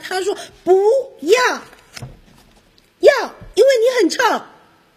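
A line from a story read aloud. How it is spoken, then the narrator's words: Louder. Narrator (Chinese): 臭臭熊也更大声的回答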